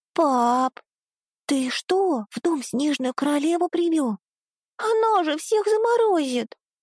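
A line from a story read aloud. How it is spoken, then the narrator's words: Child's shrill squeal from behind. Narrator (Russian): Взвизгнула за спиной моя дочь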